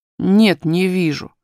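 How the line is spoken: Offended. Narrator (Russian): повторил Курди обиженным тоном

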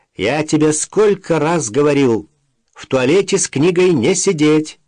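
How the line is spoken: Shout. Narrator (Russian): крикнул ей вслед Максим

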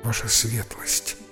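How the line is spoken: Weak, very quiet voice. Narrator (Russian): от слабости говорила очень тихо

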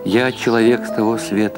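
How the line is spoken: Dejected. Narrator (Russian): ответил Гершель уныло

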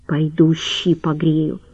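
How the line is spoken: Quiet. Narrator (Russian): тихонько сказала Ольга

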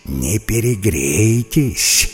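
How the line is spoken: Irritated snake hissing. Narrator (Russian): шипела в ответ анаконда, у которой голова начинала болеть от крика и болтовни обезьян

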